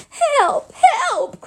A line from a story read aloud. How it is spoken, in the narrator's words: cried Piglet